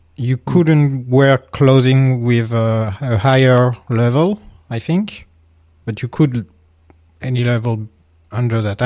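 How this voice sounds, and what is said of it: Tired non-native accented English. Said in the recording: “I'm very sorry about my accent tonight. I'm very tired. I'm like losing my English.”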